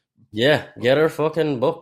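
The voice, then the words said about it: Put-on Northern Irish accent. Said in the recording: “That's my accent, my Northern Irish accent.”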